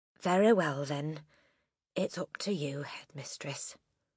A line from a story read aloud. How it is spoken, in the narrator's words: She said softly